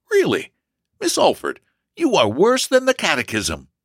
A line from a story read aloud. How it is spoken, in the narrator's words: with a perplexed laugh and replied